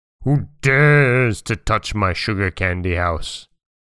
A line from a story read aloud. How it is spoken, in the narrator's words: roared the wolf again